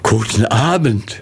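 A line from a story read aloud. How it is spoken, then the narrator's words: Trembling voice, forced smile. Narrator (German): Gurow sagte mit bebender Stimme und erzwungenem Lächeln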